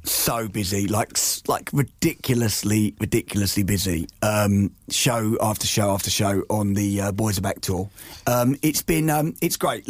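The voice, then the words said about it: Slightly husky, hoarse voice. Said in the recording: “you can probably hear from the voice ... You sound a bit like you sound like a rock star now ... I know it's a little bit husky”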